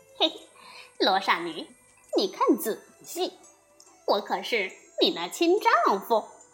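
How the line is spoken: Delighted laughing. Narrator (Chinese): 悟空听后大喜，笑道

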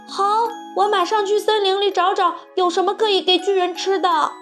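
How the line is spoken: Loud shout. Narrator (Chinese): 卢茨佩罗大声喊道

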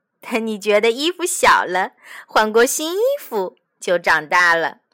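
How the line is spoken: Smiling. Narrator (Chinese): 妈妈笑着说

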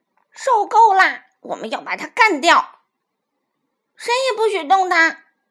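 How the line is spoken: Chubby child shouting. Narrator (Chinese): 小胖墩喊道

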